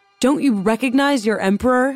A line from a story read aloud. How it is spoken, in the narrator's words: he shouted at the guards